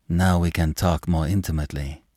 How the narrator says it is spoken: said Madame

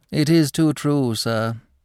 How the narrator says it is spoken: sighed Psmith

